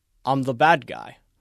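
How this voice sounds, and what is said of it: Attempted British accent. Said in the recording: “In a British accent, which is what that was an attempt at.”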